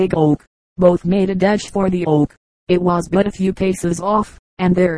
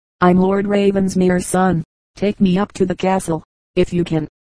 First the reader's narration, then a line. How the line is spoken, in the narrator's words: he said, feebly